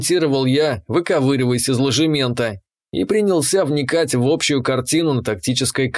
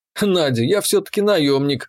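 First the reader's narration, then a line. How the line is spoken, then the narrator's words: Wry snort. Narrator (Russian): хмыкнул я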